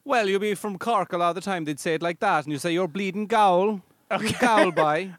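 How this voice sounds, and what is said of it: Put-on Irish accent. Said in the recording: “I like how you're doing an Irish accent. ... wow, you put that on.”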